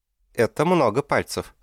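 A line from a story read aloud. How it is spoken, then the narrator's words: Summing up, giggling. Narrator (Russian): подвела итог Селестина, хихикнувшая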